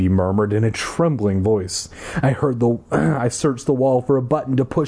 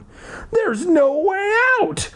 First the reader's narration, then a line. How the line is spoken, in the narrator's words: Libby wailed